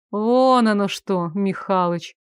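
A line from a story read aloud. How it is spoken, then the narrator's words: Drawling, starting to smile. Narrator (Russian): протянула она, начиная улыбаться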